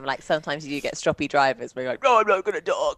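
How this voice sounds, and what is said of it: Imitates a grumpy driver's voice. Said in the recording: “That was my impression of a strappy driver.”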